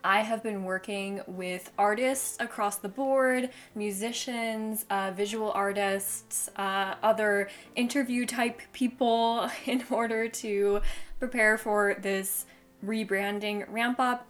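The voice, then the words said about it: Excited, enthusiastic voice. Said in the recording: “I think you can tell from my voice, I'm obsessed with it. I'm so excited.”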